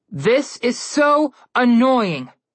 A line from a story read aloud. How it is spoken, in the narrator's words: Connor yelled